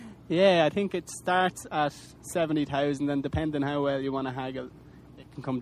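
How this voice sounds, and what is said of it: Usual voice. Nothing is said of it.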